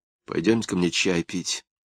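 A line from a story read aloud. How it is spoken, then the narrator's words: Quiet request. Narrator (Russian): негромко попросила Екатерина Васильевна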